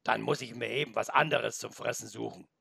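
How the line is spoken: Grumbling. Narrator (German): brummte noch

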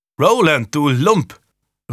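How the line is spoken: Calling out down corridor. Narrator (German): rief Julian auf den Korridor hinaus

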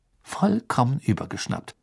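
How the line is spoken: Plain. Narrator (German): sagte

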